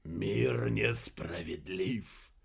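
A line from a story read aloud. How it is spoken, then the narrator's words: Whisper. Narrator (Russian): прошептал он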